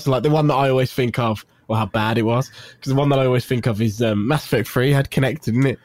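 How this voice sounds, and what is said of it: Brummie (Birmingham) English accent. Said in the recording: “my Brummie accent”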